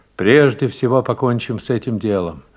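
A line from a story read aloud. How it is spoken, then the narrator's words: Quiet speech. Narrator (Russian): офицер тихо проговорил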